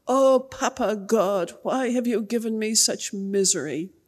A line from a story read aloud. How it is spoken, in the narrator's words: she moaned and groaned